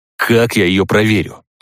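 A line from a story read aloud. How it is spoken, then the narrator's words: Growling. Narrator (Russian): рыкнул я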